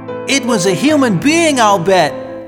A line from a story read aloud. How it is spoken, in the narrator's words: cried Michael